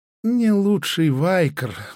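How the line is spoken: Sighing seller. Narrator (Russian): вздохнул продавец

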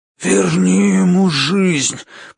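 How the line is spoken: Hoarse rasp. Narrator (Russian): прохрипел он

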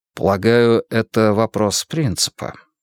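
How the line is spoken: Soft. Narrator (Russian): мягко заметил я

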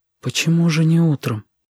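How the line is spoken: Whispered question. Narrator (Russian): шепотом спросила Сашка

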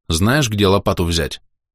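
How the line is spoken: Dry wooden voice. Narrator (Russian): сухо и деревянно звучал мой голос

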